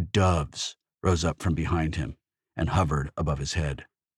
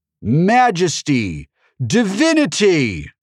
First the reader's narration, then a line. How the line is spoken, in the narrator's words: shouted in that booming voice